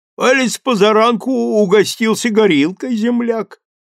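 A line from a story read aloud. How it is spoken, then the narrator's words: Shouted cheerfully. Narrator (Russian): весело крикнул Куликов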